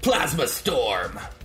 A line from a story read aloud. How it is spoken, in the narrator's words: in the distance, because she's kind of high above you, you hear her yell out